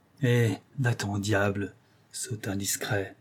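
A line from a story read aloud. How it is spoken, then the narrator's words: Murmuring. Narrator (French): murmura André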